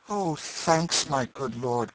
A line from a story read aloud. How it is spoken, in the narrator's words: cried the boy